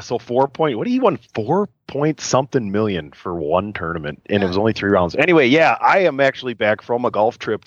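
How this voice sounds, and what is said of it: Rougher voice than usual. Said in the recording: “I sound a little rougher than normal, it's because I drank a lot in the last 3 days”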